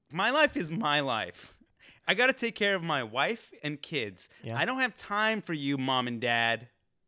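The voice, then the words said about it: Mock impression of a white person. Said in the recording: “doing an impression of all white people”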